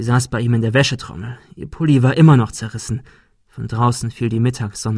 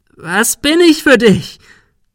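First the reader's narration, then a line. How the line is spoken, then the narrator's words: Shrieking. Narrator (German): Sarah kreischte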